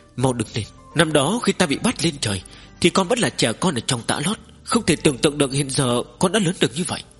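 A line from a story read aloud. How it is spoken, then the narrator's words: Tearful trembling emotional. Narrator (Vietnamese): Vân Hoa tiên tử kích động không thôi, đôi mắt đẹp chảy lệ như dòng suối, khóc giống một hồi lâu mới run rẩy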